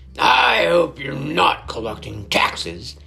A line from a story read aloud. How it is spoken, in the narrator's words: he growled